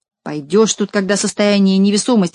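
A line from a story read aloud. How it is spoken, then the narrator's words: Plain. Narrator (Russian): сказал Борчун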